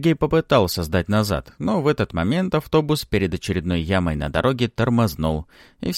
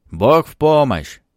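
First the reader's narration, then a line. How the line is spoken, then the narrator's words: Loud shout. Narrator (Russian): чтобы все слышали, громко прокричал Сергей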